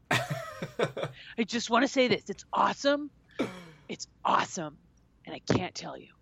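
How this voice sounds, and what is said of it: Imitates another person's voice. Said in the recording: “best part of my impression”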